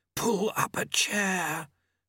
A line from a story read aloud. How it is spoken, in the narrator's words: Famine hissed